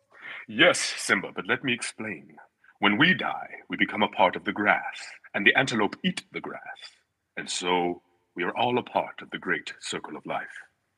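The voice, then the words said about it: Imitates Mufasa's voice from The Lion King. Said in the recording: “You talk about a Mufasa impersonation.”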